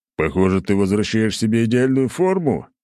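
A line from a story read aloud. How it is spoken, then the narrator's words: Chuckling. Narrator (Russian): хохотнул я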